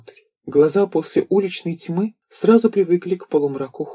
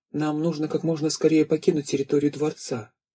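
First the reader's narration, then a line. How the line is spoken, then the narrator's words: Quiet male voice. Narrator (Russian): тихо сказал он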